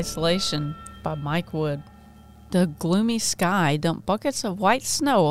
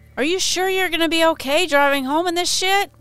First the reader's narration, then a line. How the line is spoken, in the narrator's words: shouting over the blistering wind